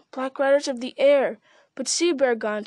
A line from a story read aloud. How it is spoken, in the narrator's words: he cried